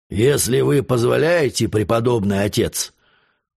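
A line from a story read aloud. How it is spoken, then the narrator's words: Hoarse reply. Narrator (Russian): отвечал он хриплым голосом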